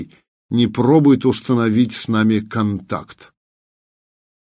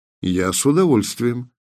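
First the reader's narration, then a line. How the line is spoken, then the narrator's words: Even voice, clenched teeth. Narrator (Russian): сказал Артем ровным голосом, стискивая зубы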